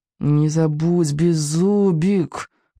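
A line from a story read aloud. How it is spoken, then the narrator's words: Muttered through clenched teeth. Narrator (Russian): процедил Икинг сквозь зубы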